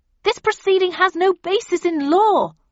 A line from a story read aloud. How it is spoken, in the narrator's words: I shouted, attempting to drown out the vicar